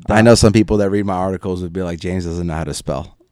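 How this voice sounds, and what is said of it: Northeastern US accent. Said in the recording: “it sounds like you have a Boston accent ... I thought it was Jersey”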